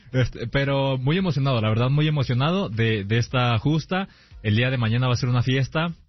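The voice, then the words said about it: Deep radio announcer voice. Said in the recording (Spanish): “con esa voz ... Tiene voz de locutor.”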